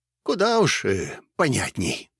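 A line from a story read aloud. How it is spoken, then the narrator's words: Dejected sigh, old man. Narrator (Russian): понуро вздохнул дед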